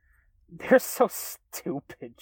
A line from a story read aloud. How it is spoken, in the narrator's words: she chuckled